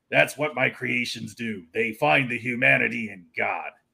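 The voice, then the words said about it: Jack Kirby impression. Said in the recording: “a pretty good Jack Kirby impression”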